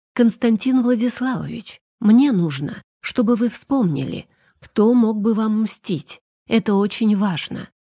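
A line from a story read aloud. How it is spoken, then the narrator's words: Plain. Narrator (Russian): сказала я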